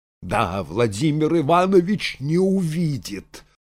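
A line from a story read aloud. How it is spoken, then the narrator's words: Spiteful reply. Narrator (Russian): злобно ответила Анна Григорьевна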